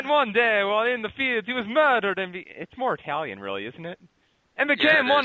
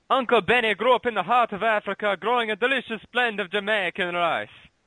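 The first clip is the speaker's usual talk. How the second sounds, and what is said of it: Bad put-on Jamaican accent. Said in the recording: “That's my bad Jamaican accent.”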